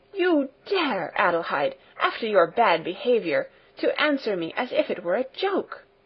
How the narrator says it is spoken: With raised voice she exclaimed

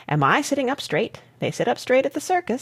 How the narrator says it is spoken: says he

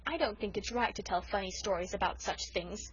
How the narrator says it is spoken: said Felicity coldly

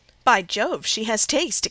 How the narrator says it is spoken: exclaimed Henry Lynn

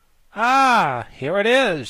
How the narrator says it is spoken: she cried joyfully

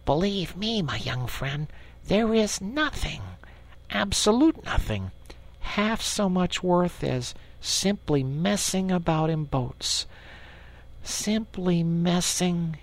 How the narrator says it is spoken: he went on dreamily

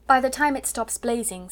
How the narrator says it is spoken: Sarah said

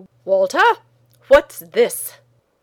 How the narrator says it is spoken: he said sternly

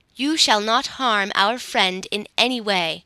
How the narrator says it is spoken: replied Ak

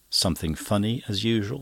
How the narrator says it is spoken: said Cummings

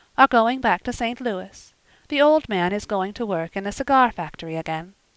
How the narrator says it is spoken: she said calmly

